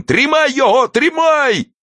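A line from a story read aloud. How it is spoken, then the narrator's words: Cracked, angry, whiny male shout. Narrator (Russian): закричал мужской натреснутый, злобный и плаксивый голос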